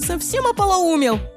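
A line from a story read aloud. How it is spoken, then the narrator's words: Yelling. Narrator (Russian): заорала Лиззи на брата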